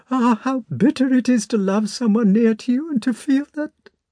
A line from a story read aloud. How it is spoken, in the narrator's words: she went on in a trembling voice